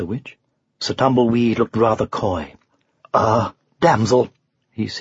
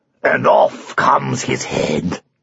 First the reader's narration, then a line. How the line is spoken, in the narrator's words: roared Arthur